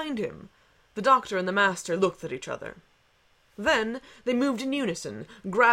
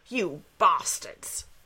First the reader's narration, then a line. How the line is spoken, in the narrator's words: snarled Goth